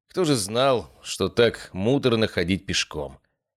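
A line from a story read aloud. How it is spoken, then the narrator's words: Wry snort. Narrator (Russian): хмыкнул я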